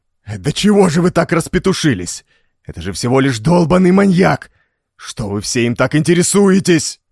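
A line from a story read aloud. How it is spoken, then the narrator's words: Desperate roar. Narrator (Russian): Отчаянно взревел он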